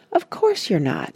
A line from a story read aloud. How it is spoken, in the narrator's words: said Joe kindly